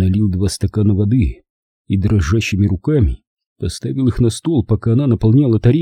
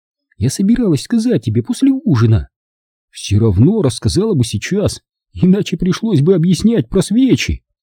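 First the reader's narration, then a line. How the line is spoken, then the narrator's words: Laughing. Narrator (Russian): рассмеялся мессия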